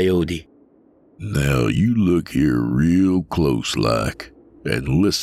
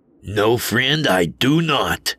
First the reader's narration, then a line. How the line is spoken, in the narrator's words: I growled back